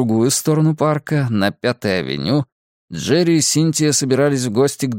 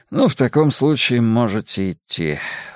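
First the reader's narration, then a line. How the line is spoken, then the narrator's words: Sigh. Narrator (Russian): вздохнул Островский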